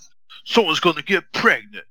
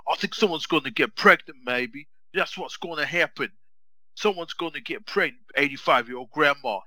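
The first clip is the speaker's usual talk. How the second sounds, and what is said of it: Tracy Morgan impression. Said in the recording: “You sound like Tracy Morgan. You got to do your Tracy Morgan impression”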